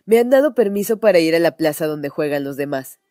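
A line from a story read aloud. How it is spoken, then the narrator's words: Shouting into ear. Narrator (Spanish): gritando a Gerda al oído, dijo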